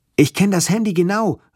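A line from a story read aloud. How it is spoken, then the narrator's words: Called out. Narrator (German): rief ich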